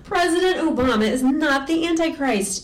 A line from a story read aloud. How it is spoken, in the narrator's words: Eric snapped